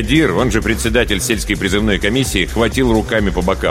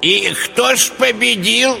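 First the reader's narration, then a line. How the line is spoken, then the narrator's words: Old man shouting from crowd. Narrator (Russian): крикнул из рядов дед Тарас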